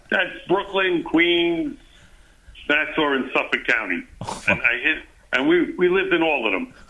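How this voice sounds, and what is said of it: New York accent. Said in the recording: “You got to be from New York with that accent”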